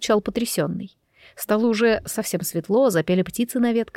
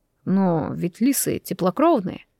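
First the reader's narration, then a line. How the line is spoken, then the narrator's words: Bewildered. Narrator (Russian): сказал я растерянно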